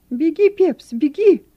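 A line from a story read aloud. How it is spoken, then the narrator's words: Shouted. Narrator (Russian): кричал он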